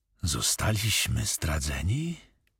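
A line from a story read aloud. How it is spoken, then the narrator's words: Whispered. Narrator (Polish): wyszeptał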